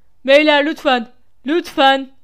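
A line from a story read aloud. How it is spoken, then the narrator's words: Shouted. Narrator (Turkish): diye bağırdı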